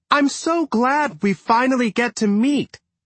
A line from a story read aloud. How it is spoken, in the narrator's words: Jenny shouted again